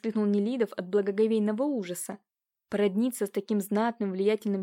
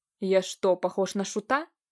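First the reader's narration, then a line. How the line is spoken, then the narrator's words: Angry outburst. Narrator (Russian): уже взвился зло канцлер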